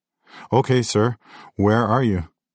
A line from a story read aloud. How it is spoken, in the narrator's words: Her voice sounded firmer, more focused